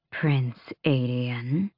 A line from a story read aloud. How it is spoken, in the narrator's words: purred the thing inside it